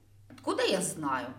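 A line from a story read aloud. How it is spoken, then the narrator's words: Irritated reply. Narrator (Russian): раздраженно отозвался хозяин покоев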